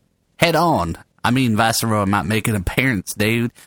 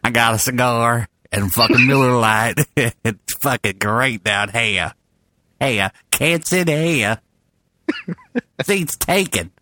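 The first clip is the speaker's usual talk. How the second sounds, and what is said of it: Put-on movie character accent. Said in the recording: “Maybe I should do an accent. ... This is what I sound like when I'm drinking. ... That's not even close. ... Forrest Gump.”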